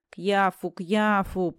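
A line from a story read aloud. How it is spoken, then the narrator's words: Moaning. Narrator (Russian): простонал Чертопханов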